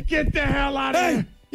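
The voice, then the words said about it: Yelling. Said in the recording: “Why am I yelling at you?”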